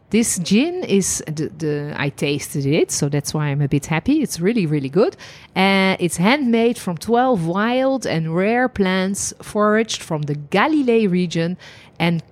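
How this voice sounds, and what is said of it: Noticeable non-American English accent. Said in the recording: “for people that can't understand her accent, djinn, like the liqueur, the liquor, djinn... It's your accent.”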